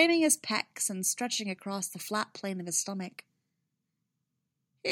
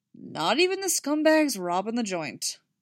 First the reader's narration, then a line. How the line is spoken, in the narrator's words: Jason says grimly